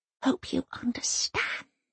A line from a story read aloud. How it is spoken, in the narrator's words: Elsa whispers in the secret language